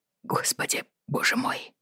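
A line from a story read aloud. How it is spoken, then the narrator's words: Shocked mutter. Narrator (Russian): потрясенно пробормотал он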